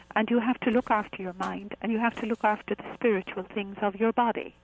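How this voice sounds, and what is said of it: Softened Irish accent. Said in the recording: “I'm Irish, of course, you can figure that out ... I can hear it ... that kind of soothes off my accent a little bit”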